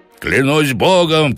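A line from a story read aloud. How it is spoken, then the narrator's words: Shout. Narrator (Russian): крикнул он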